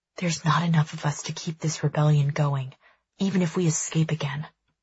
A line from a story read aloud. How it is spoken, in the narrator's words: I whisper to my brother